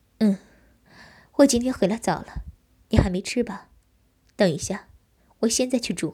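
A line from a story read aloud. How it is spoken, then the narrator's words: Soft chuckle. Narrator (Chinese): 我轻笑道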